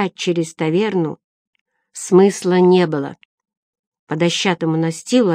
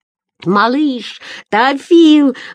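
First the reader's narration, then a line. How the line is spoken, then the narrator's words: Roaring. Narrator (Russian): взревел Эггард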